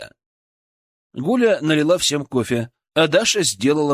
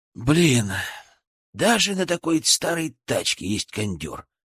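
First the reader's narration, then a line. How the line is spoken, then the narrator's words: Sighing. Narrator (Russian): вздохнул Максим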